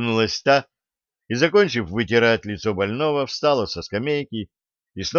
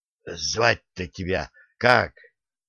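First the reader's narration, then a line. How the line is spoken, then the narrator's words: Hoarse, after steeling himself. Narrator (Russian): собравшись с духом, прохрипел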